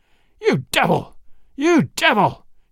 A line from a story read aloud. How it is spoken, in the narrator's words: he shouted, and his voice sounded like the roar of a wild beast